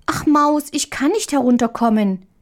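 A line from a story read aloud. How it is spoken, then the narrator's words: Little girl calling. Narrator (German): rief die kleine Marie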